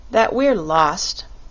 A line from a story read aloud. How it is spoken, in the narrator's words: said with a sigh